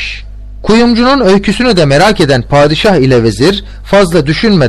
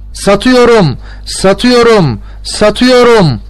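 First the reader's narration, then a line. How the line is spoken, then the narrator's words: Shouting. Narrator (Turkish): diye bağırıyor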